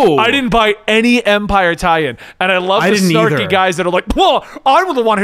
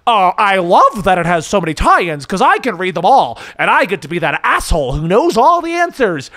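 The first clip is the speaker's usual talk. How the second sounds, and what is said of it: Snarky mocking voice. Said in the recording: “I'm going to do this in a snarky voice ... I'm going to do a snarky voice”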